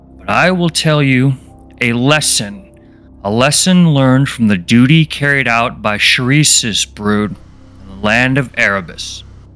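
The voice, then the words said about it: Raspy character voice. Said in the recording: “My voice is far too raspy.”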